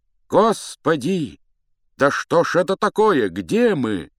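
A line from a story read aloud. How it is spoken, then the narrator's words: Two distorted cries. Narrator (Russian): вскрикнули оба не своим голосом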